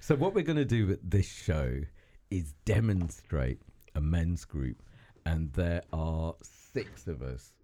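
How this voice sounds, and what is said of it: Unusually low, deep voice. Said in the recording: “my voice has gone underground. Can you hear how low my voice is?”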